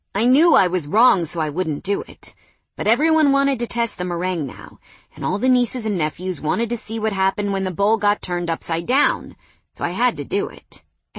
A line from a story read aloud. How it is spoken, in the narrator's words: Aaron said